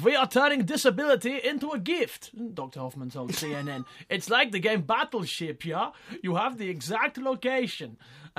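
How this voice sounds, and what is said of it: Poor put-on German accent. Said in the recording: “Do you want me to do a poor German accent?”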